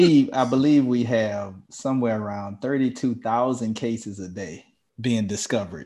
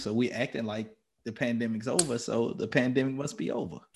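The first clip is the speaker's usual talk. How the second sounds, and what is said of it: Sarcastic tone. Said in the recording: “being sarcastic? ... I am being a bit sarcastic.”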